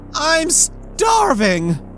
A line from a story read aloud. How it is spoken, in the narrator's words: he yelled